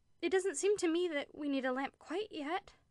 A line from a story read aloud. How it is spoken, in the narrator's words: she said in a piteous, pleading voice like a child's